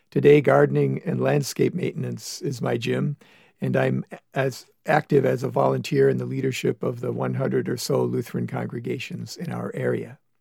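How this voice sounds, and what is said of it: Gravelly, rough hoarse voice. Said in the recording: “my voice sounds, as some have pointed out, like I've been screaming at the big game and gargling with drain cleaner ... I've begun to think of my voice as gravelly”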